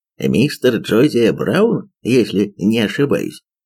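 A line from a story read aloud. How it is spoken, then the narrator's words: Plain. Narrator (Russian): спросил Холмс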